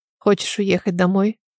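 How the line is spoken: Quiet question. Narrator (Russian): Тихо спросил Алан

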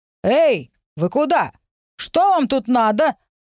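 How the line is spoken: Distant shouting. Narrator (Russian): закричали нам откуда-то издали

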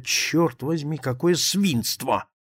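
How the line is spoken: Involuntary mutter to oneself. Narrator (Russian): Невольно я пробормотал про себя

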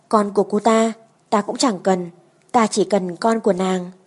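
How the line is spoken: Angry. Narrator (Vietnamese): Thừa Đức tức giận

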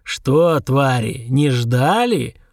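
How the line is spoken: Growl. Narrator (Russian): прорычал

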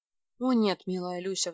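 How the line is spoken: Sigh. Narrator (Russian): вздохнул тот

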